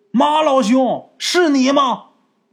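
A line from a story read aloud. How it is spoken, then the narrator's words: Loud call in silence. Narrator (Chinese): 这一声喊啊，在寂静的夜里边显得是特别响亮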